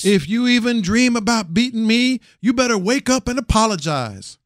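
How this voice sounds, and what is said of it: Poor imitation of another person's voice. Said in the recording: “Why don't you just go urinate on his grave with that impression? That's how disrespectful that was.”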